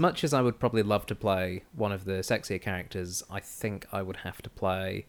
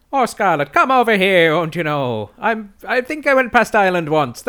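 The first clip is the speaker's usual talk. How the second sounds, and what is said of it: Put-on exaggerated Irish accent. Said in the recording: “the ever so slightly Irish Mr. O'Hara ... That's where this accent comes from”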